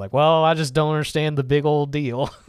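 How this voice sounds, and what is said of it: Put-on Texas accent. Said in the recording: “with a Texas accent”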